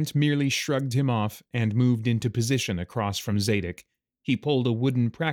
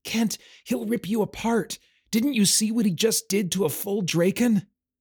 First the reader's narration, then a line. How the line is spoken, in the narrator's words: The other boy who had arrived with him, Aemon, ... whispering